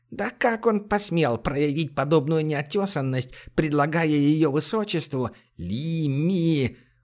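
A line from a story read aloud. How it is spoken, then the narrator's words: Hissed in unison. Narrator (Russian): Хором зашипели Тервис с Айлани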